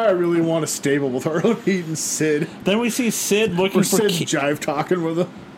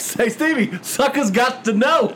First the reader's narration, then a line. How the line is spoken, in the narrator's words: he was just laughing and saying